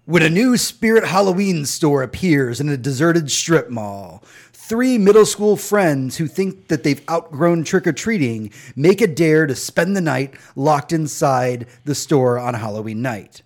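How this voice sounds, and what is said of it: Dramatic movie trailer narrator voice. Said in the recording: “Let me get my movie trailer voice on.”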